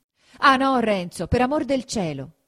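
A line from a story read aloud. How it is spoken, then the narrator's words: Shouted. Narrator (Italian): gridò Lucia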